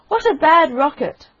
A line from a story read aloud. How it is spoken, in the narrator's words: he cried